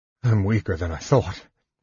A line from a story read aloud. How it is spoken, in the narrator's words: he mumbled, clutching his side in pain